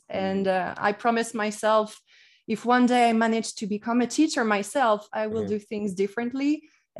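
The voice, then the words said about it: Light French accent in English. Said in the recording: “Typical French accent, which I still have, but I really fought hard to get rid of most of it”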